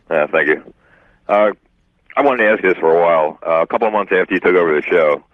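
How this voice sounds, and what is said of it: Polished radio-announcer voice. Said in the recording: “You got a radio voice”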